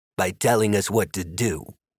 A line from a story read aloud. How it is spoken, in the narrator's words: Magnus Galka said